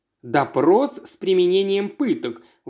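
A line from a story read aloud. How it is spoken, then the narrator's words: Indignant. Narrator (Russian): возмущенно сказал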